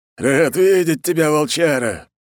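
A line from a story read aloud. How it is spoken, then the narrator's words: Booming veteran. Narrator (Russian): прогудел ветеран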